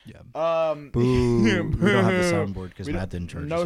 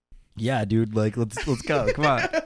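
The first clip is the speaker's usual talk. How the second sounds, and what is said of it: Imitates another person's voice. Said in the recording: “my Richard impression”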